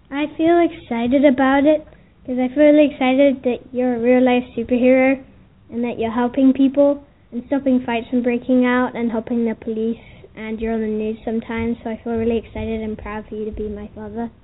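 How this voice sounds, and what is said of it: Excited, proud young girl's voice. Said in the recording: “hear the pride in her voice.”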